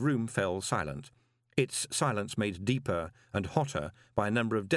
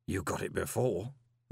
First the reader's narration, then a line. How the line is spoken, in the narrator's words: murmured Gilt